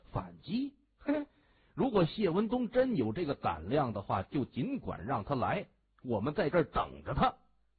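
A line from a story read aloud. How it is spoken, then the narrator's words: Sneering laugh. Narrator (Chinese): 王龙堂他冷笑着说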